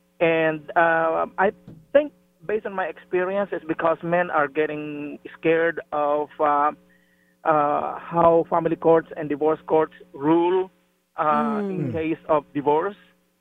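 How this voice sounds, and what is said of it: Speaks with a noticeable accent. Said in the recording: “I hope you can understand me despite my accent.”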